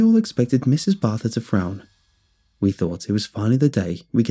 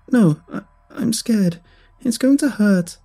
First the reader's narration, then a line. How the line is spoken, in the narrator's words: Emily sobbed